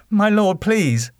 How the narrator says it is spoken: Underwood chuckled

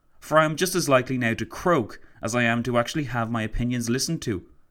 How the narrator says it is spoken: he exclaimed to Roosevelt

